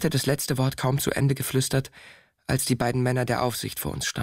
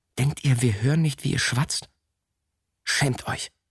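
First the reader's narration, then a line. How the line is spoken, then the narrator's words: Hissing. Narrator (German): zischte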